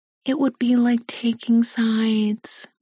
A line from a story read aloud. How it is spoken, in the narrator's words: she says sweetly